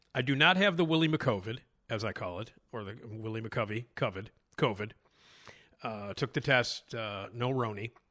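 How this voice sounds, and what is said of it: Congested, throaty, stuffed-up voice. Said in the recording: “I sound a little congested and a little throaty and a little maybe snotty ... I do have like a stuffed up head and a little bit of a throat thing”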